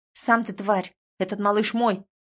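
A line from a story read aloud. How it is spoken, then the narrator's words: Snarled. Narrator (Russian): рыкнула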